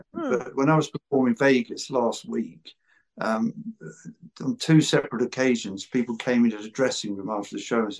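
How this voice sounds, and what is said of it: English accent, slowed delivery. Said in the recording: “I thought there's no way I'm going to change my accent ... I do slow it down ... an English accent”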